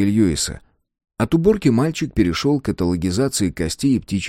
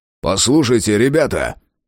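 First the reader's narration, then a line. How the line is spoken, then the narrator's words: Barking. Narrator (Russian): рявкнул Фрейзер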